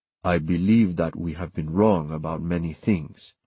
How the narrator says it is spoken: Francisco said very softly in words, not whistles

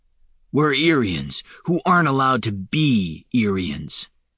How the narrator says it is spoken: Falinar snarled

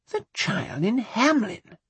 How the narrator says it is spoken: Charles exclaimed

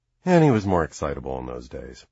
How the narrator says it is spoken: he sighs

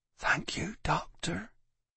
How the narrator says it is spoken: She said in a pathetic whisper

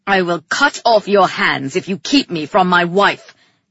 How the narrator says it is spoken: Calyx snarled

